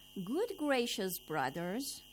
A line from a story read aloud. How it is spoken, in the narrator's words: the fifth man called out